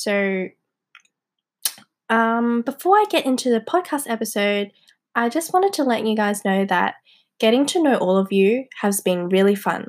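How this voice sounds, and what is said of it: Hoarse, congested voice. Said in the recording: “I have a blocked nose because I've been sick the past week and I've been coughing a lot, so my voice is a little bit hoarse... this hoarse voice”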